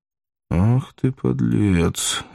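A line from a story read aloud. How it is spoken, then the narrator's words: Thoughtful. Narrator (Russian): задумчиво сказал Воланд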